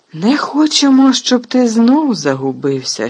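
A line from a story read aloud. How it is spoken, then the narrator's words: Sincere laughing. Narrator (Ukrainian): щиро засміявся Фадж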